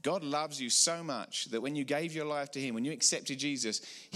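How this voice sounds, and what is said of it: English accent. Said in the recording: “You may recognize from my accent, I'm not a Colorado native ... the English accent's cool”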